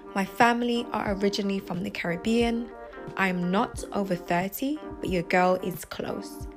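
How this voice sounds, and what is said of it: British accent. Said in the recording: “I am UK based. I'm sure you can tell by the accent.”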